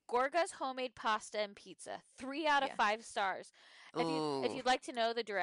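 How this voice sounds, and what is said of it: Usual voice. Nothing is said of it.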